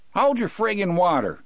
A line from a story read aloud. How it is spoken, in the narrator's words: Harry yelled back